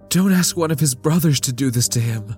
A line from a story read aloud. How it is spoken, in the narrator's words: Lita pleaded